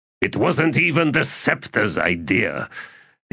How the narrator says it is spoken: the emissary grumbled

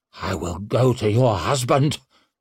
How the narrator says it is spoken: snarled Aaronholm

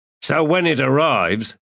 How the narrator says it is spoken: Ansi snapped

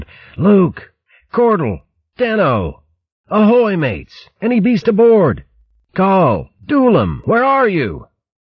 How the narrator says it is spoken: Verg ignored the splitting ache in his face and head and shouted aloud

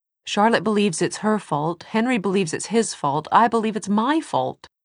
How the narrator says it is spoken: Tessa said impatiently

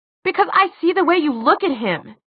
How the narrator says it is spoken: he shouted

